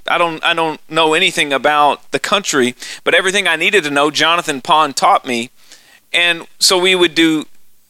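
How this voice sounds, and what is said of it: Rural Texan accent. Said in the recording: “I sound like a hick from Texas, from the sticks”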